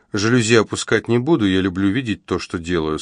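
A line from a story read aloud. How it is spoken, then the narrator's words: Plain. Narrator (Russian): сказала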